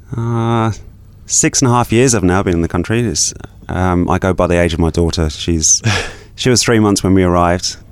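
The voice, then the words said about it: English accent. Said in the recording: “A little bit of an accent still. So you're originally from England.”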